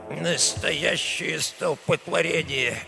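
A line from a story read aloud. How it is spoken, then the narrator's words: Old man's displeased grumble. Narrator (Russian): недовольно бурчал старый Альфонсо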